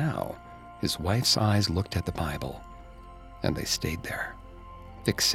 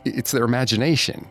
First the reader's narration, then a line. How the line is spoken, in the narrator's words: the innkeeper stammered, perhaps too quickly